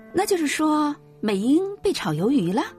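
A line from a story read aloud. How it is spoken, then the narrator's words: Shouting aunt. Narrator (Chinese): 大姨冲着我喊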